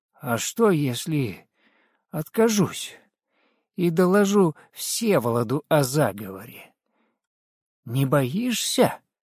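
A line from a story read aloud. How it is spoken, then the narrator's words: Suppressed fear, nearly calm. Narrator (Russian): стараясь не показать испуга, унимая дрожь в теле и в голосе, почти спокойным голосом сказал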